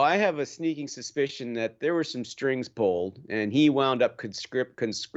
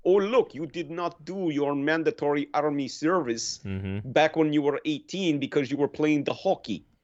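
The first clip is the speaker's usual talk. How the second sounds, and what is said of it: Deliberately bad Russian accent. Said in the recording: “in my very bad Russian accent”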